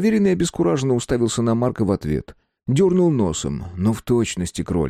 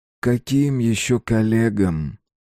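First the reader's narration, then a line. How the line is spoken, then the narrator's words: Menacingly gentle question. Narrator (Russian): угрожающе ласково спросил Марк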